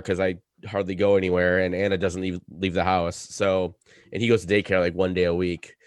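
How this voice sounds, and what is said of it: Slightly hoarse voice. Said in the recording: “If you can't tell, my voice is a little hoarse. Picked up a cold”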